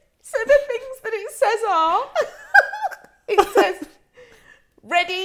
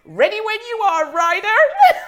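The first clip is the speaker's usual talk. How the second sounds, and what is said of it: Plucky American cartoon voice. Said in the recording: “it's like this little plucky American cartoon voice.”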